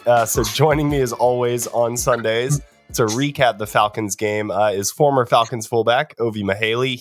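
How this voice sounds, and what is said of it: Sick, strained-sounding voice. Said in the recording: “as you can hear from my voice. Playing a little hurt today. I've been sick”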